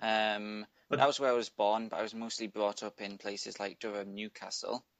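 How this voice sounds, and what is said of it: English accent. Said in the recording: “to me, you sound uh, English”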